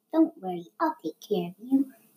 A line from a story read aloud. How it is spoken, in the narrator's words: the servant whispered to the baby